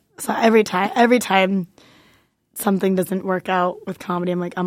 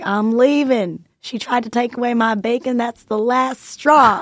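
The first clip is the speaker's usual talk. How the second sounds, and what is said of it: Thick Southern accent, little boy. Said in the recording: “He had this like the thickest Southern accent.”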